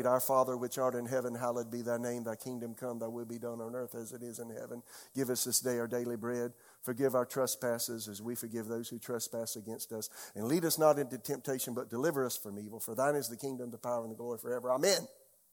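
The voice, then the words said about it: Very fast rote recitation. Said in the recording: “That's why I can say it so fast.”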